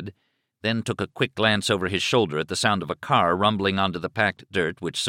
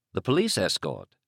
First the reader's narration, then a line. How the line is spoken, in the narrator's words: Raleigh said calmly